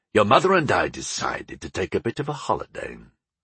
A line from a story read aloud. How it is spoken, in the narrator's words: my father grunted, as he pulled himself up the narrow stairs